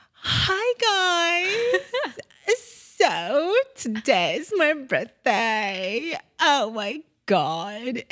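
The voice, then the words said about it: Put-on Valley girl accent. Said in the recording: “Californian Valley girl accent ... I was doing this like back throat, like I was trying to mimic”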